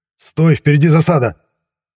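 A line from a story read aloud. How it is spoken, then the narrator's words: Shouting. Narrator (Russian): выкрикнул я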